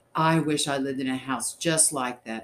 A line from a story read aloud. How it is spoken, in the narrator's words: exclaimed